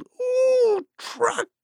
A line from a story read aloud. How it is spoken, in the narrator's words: Suddenly, squealed